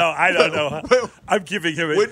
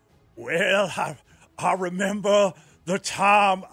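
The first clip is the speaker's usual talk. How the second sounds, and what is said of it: Put-on elderly southern drawl. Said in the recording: “I'm trying to give him an elderly, southern sort of a drawl.”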